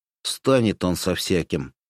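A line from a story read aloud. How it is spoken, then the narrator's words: Snorting. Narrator (Russian): хмыкнул боец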